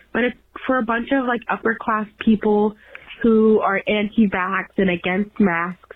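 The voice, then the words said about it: Rough, strained sick voice. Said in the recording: “my voice is so fucked up right now ... I am sick right now”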